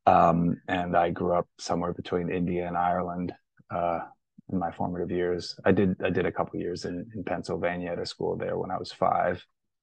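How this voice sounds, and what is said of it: International, semi-American accent. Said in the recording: “this is a weird international accent that, you know, military army brats and people who went to boarding school or international schools have. ... the kind of semi-American part of the accent”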